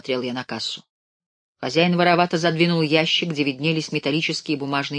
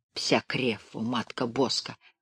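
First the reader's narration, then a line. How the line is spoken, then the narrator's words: Muttered. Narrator (Russian): пробормотал пан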